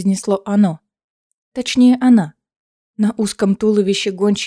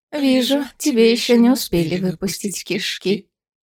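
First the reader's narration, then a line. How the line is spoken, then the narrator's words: Mockingly sugary tone. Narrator (Russian): издевательски елейным тоном произнесла гончая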